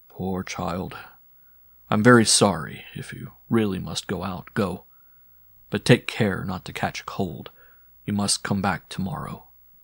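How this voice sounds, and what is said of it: Low, quiet voice. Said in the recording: “said in a low voice”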